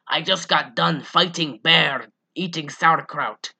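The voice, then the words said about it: Eastern European accent, poorly done. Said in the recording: “My terrible Eastern Bloc accent.”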